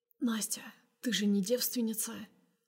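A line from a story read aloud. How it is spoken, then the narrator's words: Hoarse question. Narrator (Russian): спрашивает осипшим голосом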